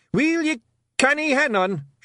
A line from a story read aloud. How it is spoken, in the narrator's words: shouted Rob Anybody